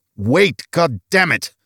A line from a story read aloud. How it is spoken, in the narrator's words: Olaf snarled